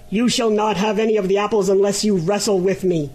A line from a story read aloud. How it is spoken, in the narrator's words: exclaimed the griffin angrily